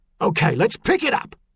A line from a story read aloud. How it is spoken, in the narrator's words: barked